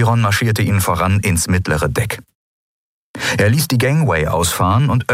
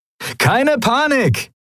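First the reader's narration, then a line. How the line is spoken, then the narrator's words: Cheerful call to companions. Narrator (German): rief Sephiron seinen Kumpanen in bester Laune zu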